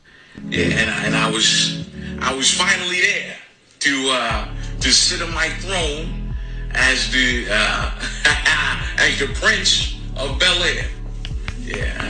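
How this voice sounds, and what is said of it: Denzel Washington impression. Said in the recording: “Great Denzel impression.”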